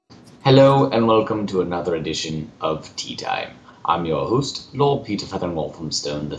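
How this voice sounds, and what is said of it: Put-on British accent. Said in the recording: “the intention of this podcast is not to ridicule British persons nor their accents. I just find it enjoyable to speak this way.”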